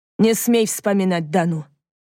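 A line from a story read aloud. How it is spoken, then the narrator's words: Growled. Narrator (Russian): прорычал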